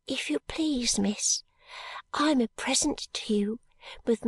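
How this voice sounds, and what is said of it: Soft, gentle little girl's voice. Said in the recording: “in a soft voice ... in the same soft voice”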